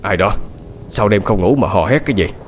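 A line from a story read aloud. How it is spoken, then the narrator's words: Mildly irritated snap. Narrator (Vietnamese): Gã gắt nhẹ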